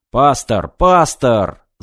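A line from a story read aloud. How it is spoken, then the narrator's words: Yelling into communicator. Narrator (Russian): заорал в коммуникатор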